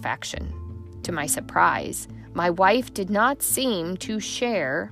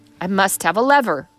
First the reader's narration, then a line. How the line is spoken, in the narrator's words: cried I